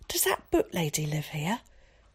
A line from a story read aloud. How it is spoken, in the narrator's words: whispered urgently